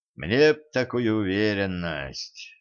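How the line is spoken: Villain's sigh. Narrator (Russian): вздохнул злодей

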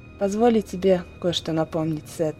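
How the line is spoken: Quiet, endlessly weary voice. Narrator (Russian): тихо сказала баронесса Крови, и в голосе ее звучала бесконечная усталость

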